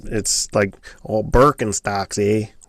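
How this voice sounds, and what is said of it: Put-on Midwestern or Canadian accent. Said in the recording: “You can't say Birkenstocks without a Midwestern like accent. ... Canadian”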